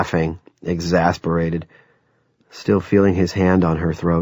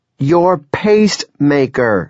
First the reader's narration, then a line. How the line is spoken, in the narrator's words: she practically screamed